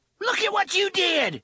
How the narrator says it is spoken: Tilly screamed

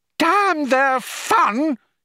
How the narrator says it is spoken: he hooted

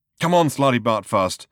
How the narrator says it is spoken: said Ford nervously

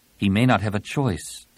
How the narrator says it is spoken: Tenelka said grimly

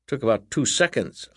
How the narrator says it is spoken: Uncle Jack added dryly

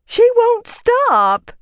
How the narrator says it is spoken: she wailed

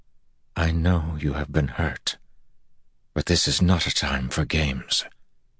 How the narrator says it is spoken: Gabrilla said softly

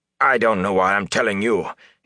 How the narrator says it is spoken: he snapped

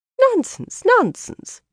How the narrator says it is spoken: Janya exclaimed

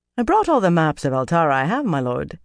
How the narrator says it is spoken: he told Talmanis in a musical accent

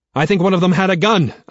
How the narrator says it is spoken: I shout back

